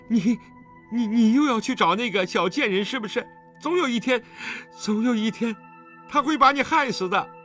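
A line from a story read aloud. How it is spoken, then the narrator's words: Trembling voice. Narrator (Chinese): 陈秋月颤声道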